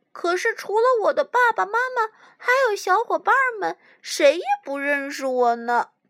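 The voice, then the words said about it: Soft, quiet, sad voice. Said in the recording (Chinese): “难过了， 小声说”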